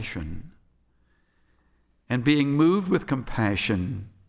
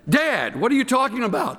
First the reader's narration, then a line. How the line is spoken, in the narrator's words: the son yells